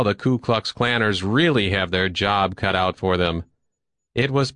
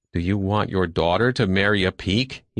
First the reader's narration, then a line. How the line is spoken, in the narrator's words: He asked himself fiercely